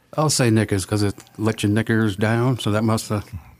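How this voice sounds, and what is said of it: Put-on accent. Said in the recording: “with your little accent there”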